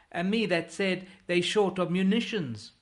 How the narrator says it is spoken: bawls Barque

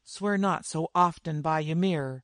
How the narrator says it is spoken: uneasily muttered a warrior

